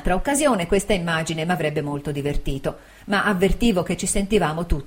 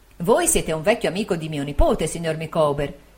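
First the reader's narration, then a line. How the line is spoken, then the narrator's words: Plain. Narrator (Italian): disse mia zia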